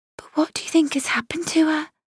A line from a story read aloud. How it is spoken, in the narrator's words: Tansy said in a small voice